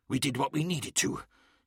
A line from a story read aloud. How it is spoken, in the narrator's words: hissed Anku Anen